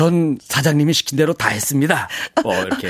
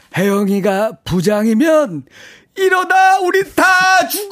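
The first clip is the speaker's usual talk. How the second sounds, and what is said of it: Impression of an old man character. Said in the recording (Korean): “오징어 게임에 ... 오일남 할아버지 ... 성대모사로”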